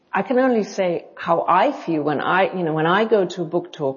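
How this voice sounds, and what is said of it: Mixed non-native English accent, lilting. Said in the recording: “your accent is hard for me to figure out exactly. It's not quite English. It's not quite German. It's like a combination ... I get South African, I get Dutch, I get Scandinavia. I very rarely get German ... some lilt in there that is not English”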